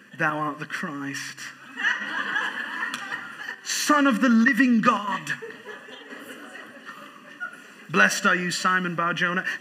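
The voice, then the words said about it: Dramatic put-on English accent. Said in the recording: “if you say it with an English accent, it's even more dramatic”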